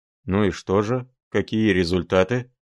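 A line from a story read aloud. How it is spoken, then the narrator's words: Asked sternly. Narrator (Russian): строго спросил Филипп Филиппович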